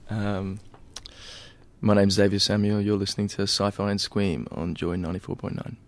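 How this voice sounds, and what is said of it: Announcer-style radio voice. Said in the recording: “Did I have a radio voice then when I said those things? ... Wow, that's good.”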